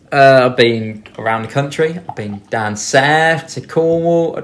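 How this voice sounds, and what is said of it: Put-on Cockney accent. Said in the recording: “That's not a Cornish accent. ... Nope, that's full-on Cockney.”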